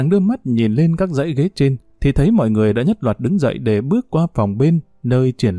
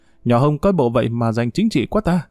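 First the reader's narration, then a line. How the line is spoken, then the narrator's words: Bursting into laughter. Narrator (Vietnamese): Yến bật cười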